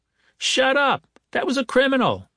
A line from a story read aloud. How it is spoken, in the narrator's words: a woman shouted